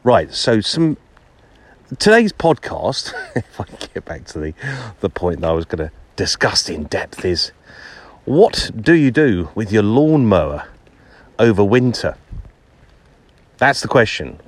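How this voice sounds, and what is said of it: English accent from outer London. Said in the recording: “the accent is from Middlesex, which is on the outskirts of London”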